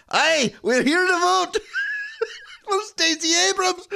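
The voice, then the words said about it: Put-on Scottish accent. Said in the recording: “they all have a Scottish accent”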